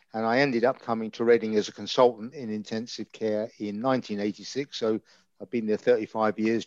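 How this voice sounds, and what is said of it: East End London accent. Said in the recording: “I'm from the East End of London, as you can probably guess by my accent.”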